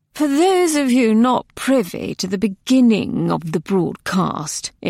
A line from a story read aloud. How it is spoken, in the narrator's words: it drawled